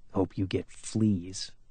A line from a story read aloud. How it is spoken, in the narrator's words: he mumbled under his breath